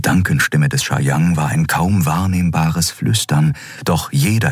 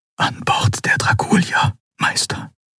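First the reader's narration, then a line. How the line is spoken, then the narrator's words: Whispered. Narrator (German): flüsterte er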